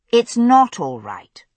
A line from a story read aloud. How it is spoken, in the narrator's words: I said firmly